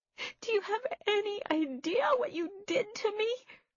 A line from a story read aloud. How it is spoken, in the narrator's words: She screamed, shaking her fists in the air